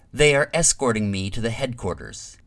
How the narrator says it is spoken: he said sharply

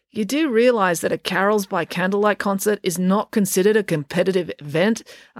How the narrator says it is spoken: asked Derek

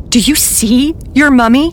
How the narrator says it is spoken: I asked desperately

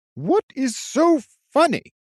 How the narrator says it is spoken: Noman shouted at him

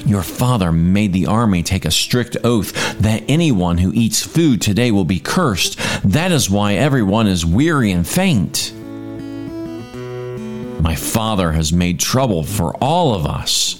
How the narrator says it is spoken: Jonathan exclaimed

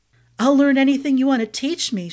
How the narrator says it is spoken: blurted, feeling breathless

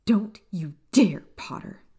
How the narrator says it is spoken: Lily snarled

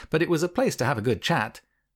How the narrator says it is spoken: I laughed

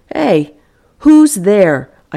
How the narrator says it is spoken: called out

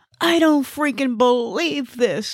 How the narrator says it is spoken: I wailed

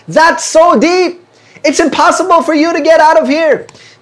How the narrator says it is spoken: they shouted to the two frogs below

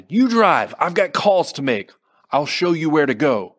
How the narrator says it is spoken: Aaron shouted

